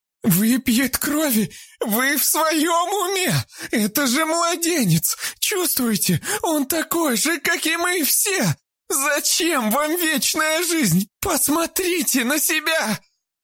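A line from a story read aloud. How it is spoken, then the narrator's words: Tearful shouting. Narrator (Russian): Заливаясь слезами, закричала Вера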